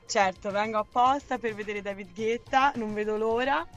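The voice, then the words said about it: Tuscan Italian accent. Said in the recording (Italian): “Un po' si sente ... si sente ... L'accento ... Toscano.”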